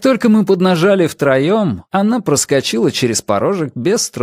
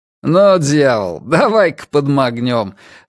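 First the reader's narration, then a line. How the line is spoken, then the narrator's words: Laughing, older man. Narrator (Russian): рассмеялся старший из двоих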